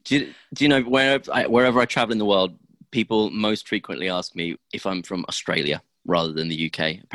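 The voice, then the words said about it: British accent that sounds Australian. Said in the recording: “my weird British accent ... Apparently, I sound Australian.”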